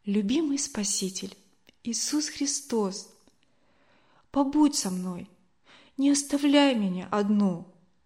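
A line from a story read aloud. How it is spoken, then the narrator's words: Quiet prayerful voice. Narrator (Russian): Катя тихо произнесла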